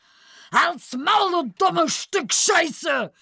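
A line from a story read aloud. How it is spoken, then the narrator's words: Frantic furious shout. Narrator (German): schrie der Kahlköpfige völlig außer sich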